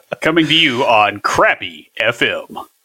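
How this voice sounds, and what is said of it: Radio DJ announcer voice. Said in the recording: “that was my DJ voice”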